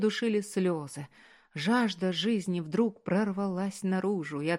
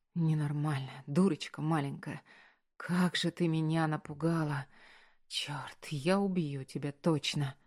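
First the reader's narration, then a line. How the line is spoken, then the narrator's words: Whisper. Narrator (Russian): шептал он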